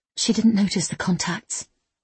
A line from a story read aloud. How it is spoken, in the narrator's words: N whispered